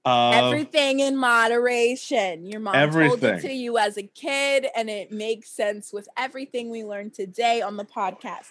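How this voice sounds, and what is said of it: New York mom voice. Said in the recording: “I don't know why my mom is suddenly in this accent. She doesn't talk anything like this ... she's a New Yorker ... That's the universal mom voice.”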